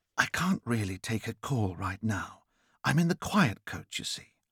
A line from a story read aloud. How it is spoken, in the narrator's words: I whispered